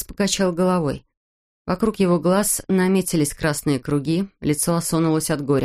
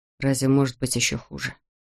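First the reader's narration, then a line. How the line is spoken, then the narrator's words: Quiet. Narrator (Russian): тихо проговорил он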